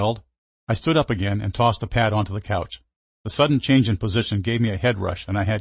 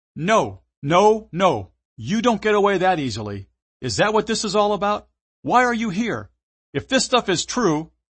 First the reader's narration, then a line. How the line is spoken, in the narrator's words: yelled again